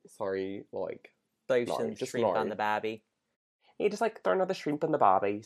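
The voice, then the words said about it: Put-on Australian accent. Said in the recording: “showcase your accent skills ... Australian”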